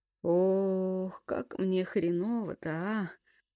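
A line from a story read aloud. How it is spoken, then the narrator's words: Groaning. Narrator (Russian): простонал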